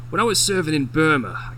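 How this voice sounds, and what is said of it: Attempted character accent, wrong one. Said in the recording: “that's the wrong accent”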